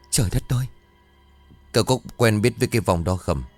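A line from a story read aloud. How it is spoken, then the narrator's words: Trembling. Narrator (Vietnamese): Ông Khương trả lời với vẻ run rẩy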